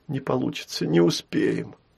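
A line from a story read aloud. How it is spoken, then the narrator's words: Sad. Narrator (Russian): отозвалась Яра грустно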